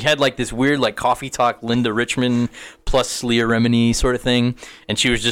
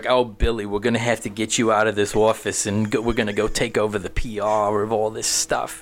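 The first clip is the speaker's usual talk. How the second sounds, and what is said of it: Exaggerated Queens New York accent. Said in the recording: “she talked like, I don't know, it was like an exaggerated Leah Remini, super Queens accent”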